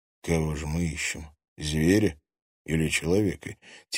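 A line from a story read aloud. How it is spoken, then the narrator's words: Quiet mutter. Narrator (Russian): тихо пробормотал он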